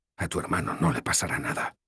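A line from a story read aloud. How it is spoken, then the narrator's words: Whispered. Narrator (Spanish): susurré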